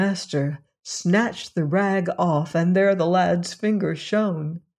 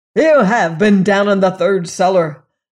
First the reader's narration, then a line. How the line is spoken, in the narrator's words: cried the master